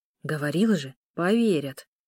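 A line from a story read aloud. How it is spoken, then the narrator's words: Whispered. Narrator (Russian): шепнул Ару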